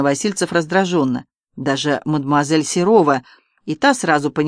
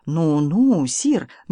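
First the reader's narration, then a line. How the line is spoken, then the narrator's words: Gentle. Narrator (Russian): мягко сказал Берешо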